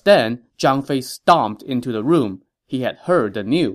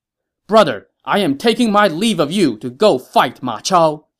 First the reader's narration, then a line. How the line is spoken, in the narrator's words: he shouted as he entered